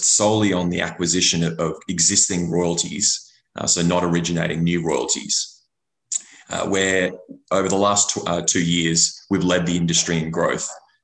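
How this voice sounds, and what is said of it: Australian accent. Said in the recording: “my unfortunate Australian accent”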